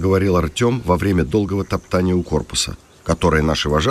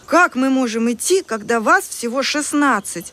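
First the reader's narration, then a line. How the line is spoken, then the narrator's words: Excited exclamation. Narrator (Russian): взволнованно воскликнула Полина без косы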